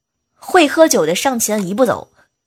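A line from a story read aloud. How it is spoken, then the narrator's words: Loud shout. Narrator (Chinese): 一个大哥 就大喊一声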